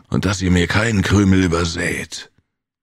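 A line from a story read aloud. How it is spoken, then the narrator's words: Growl. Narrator (German): knurrte Brigo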